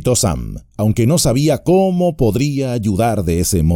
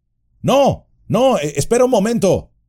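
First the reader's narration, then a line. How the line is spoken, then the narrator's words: Louder shout. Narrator (Spanish): le gritó Frodo, ahora con más fuerza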